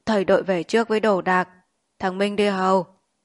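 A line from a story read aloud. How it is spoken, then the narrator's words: Hoarse voice. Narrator (Vietnamese): Ông nói bằng giọng khản đặc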